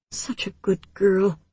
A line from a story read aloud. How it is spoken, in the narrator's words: the townspeople murmured